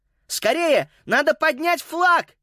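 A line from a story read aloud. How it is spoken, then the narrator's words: Shout. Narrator (Russian): крикнул он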